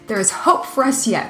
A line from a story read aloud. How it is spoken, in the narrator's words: cried Wilhelm and Bennick